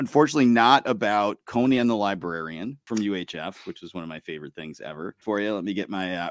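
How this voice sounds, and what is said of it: Usual voice. Nothing is said of it.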